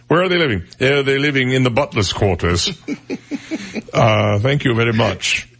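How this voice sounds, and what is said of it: Put-on Port Royal accent. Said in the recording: “That's a nice Port Royal accent”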